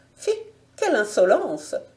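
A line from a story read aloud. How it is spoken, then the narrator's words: Frightened woman's cry. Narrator (French): s'écria la dame en proie à une vive frayeur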